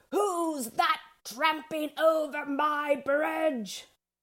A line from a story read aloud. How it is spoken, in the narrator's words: She bellowed